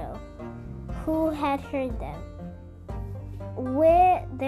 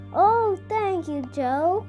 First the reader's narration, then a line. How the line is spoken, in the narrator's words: cried Jessie